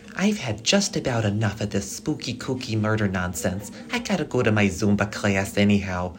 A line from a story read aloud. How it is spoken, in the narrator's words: Carol hissed